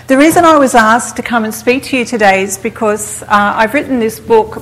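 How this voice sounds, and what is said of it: Australian accent. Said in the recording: “in case you're wondering where my accent is from. I'm from Sydney, Australia”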